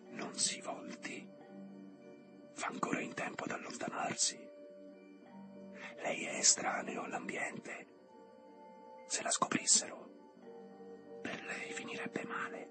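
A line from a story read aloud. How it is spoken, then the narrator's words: Sudden female whisper. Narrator (Italian): Improvvisamente una voce di donna sussurrò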